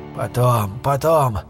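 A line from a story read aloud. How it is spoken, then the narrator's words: Tired. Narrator (Russian): устало произнес Армитедж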